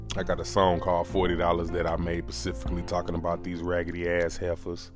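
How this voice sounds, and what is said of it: St. Louis accent. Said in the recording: “you hear that St. Louis accent in my voice”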